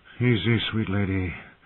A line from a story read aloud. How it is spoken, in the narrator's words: he said in a soft voice